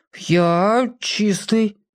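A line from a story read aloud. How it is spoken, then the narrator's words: Unsure. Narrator (Russian): неуверенно ответил Петька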